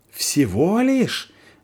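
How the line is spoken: Hysterical yelling. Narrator (Russian): вопит тот, окончательно теряя контроль над собой

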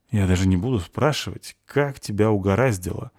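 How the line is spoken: Sighing. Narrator (Russian): вздохнул Полчик

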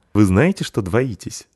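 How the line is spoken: Laughing question. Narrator (Russian): спросила смеясь

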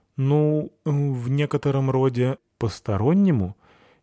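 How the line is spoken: Uncertain. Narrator (Russian): Неуверенно сказал Пурсон

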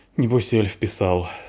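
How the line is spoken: Sighed. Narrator (Russian): вздохнул Полчик

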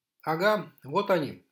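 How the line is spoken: Excited shout. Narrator (Russian): азартно выкрикнул навигатор

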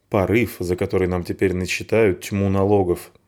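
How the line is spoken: Grumble. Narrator (Russian): буркнул

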